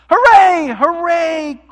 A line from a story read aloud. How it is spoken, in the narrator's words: cried the little clown and all the dolls and toys